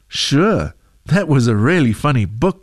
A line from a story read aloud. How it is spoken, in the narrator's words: she said